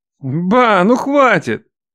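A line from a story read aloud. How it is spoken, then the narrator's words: Grumble. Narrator (Russian): пробурчал Матвей, он же Мак Эдуард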